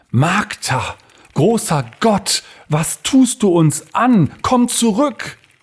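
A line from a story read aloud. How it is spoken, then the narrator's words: Hushed cry. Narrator (German): Er schrie dies leise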